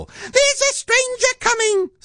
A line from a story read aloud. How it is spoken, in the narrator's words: squeaked Monkey